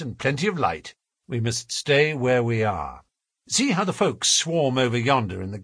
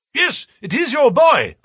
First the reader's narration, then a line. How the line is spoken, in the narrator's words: cried